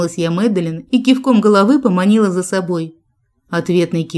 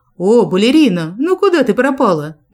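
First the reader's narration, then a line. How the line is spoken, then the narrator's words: Joyful, breaking off abruptly. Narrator (Russian): Начал он радостно и осекся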